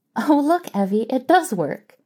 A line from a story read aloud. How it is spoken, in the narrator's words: Mary giggled helplessly